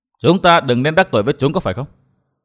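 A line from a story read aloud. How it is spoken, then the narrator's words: Cold laugh. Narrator (Vietnamese): Vân Thiên Nhạc lạnh lùng cười nói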